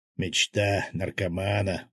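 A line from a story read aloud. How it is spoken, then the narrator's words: Mutter. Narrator (Russian): пробормотал Свят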